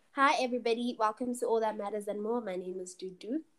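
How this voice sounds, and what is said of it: Sick, under-the-weather voice. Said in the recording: “my voice is a bit under the weather.”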